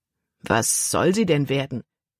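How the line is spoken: Plain question. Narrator (German): fragte Kapitän Norstadt

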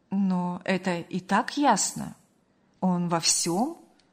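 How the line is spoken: Calm, restrained, mother. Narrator (Russian): Спокойно и сдержанно заметила мать

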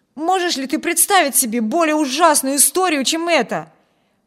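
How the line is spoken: Younger man exclaiming. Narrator (Russian): воскликнул младший Тревор

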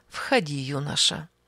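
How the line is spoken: Gentle, affectionate. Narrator (Russian): сказала она ласково

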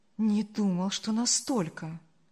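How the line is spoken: Sigh. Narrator (Russian): вздохнул Марк

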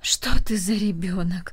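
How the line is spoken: Grandmother's sigh. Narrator (Russian): вздохнула бабушка

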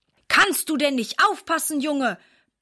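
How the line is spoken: Angry blustering. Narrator (German): poltert er ärgerlich

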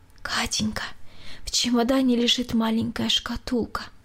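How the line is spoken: Barely audible whisper. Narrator (Russian): едва слышно прошептала

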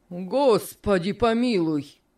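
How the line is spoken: Exclamation. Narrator (Russian): воскликнул Меркс

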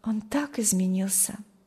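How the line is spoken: Sigh. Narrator (Russian): вздохнула Маргита

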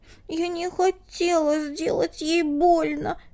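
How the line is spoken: Sobbing girl. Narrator (Russian): всхлипнула девочка

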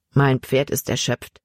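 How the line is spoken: Plain. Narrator (German): sagte der Diakon

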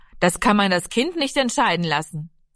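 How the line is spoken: Father interrupting loudly. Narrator (German): Vater Lenzen rief dazwischen

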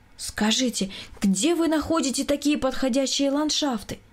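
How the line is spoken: Exclamation. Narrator (Russian): воскликнула жена Николая Николаевича

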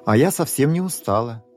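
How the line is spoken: Joyful reply. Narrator (Russian): радостно отозвалась Надя

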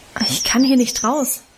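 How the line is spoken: Plain. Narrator (German): antwortete ich

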